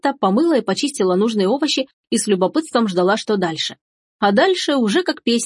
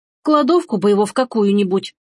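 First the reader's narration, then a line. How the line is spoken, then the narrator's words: Grumbling. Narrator (Russian): пробурчала Бабетта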